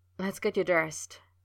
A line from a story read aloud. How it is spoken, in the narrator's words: he said, his voice low and urgent